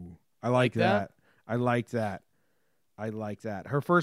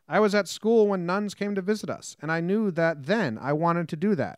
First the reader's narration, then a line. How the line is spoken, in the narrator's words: Pineda said